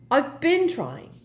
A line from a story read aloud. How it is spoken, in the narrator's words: said Harry crossly